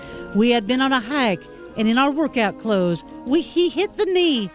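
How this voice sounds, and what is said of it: Put-on Southern accent, not great. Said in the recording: “That was not my best Southern accent.”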